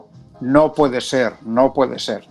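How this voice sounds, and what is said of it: Put-on hoarse character voice. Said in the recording (Spanish): “poniendo la voz ronca”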